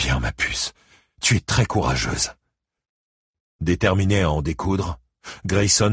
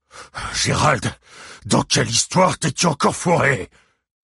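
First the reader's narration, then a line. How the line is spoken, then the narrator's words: Patriarch roaring. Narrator (French): rugit le patriarche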